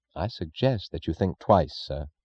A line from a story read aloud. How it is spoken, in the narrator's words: Francisco said gravely